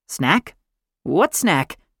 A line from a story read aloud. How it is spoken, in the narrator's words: I asked